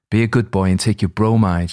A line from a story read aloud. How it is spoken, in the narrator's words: she said